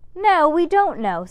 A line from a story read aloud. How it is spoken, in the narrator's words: said Max Ernest hotly